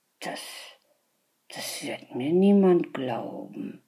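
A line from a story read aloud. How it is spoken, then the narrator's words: Puzzled murmur. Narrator (German): murmelte verwundert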